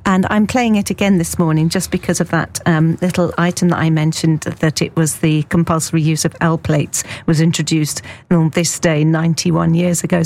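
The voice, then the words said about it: Croaky voice. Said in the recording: “my voice is going a bit croaky”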